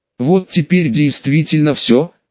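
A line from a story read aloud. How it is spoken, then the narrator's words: Exhaled. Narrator (Russian): выдохнул я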